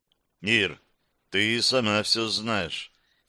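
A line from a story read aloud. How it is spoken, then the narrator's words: Quiet. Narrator (Russian): тихим голосом ответил Майер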